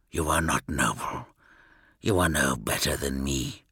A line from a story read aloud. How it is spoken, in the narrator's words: he muttered